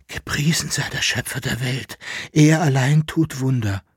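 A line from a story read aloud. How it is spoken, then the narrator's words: Whispered. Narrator (German): flüsterte Jäckelenarr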